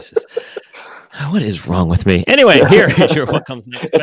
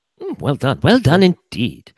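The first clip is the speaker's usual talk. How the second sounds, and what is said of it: Imitates another person's voice. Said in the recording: “that's my Victoria Korn impersonation. I have a Victoria Korn impersonation.”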